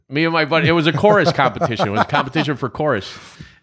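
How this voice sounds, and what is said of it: New York accent. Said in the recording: “the New York accent”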